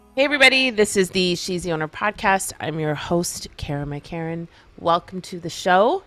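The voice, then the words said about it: Crackly, throaty voice. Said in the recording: “my voice is kind of crackly ... that tends to make me sometimes a little throaty”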